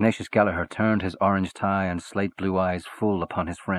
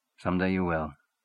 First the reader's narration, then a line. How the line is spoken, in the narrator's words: said little Chandler calmly